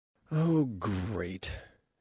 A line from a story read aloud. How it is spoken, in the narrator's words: she said wearily